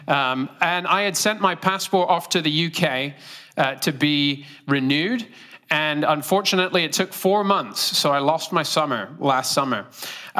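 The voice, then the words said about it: British accent. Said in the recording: “I am from Great Britain. If you can't guess my accent, it's not Australian, it's British.”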